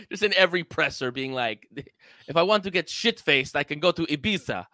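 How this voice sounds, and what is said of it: Put-on Dutch accent sounding Russian. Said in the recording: “What's up with the Russian accent? ... It's hard to do Dutch. My accent game.”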